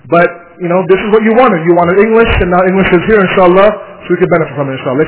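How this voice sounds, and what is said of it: Canadian accent, speaking slowly. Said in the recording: “I have a Canadian accent apparently... I'll try to speak very slowly so my accent doesn't get in the way”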